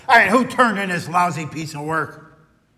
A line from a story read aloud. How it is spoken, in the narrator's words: Martin's boss stormed into the office and shouted